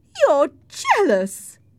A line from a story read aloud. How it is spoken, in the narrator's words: cried Isabella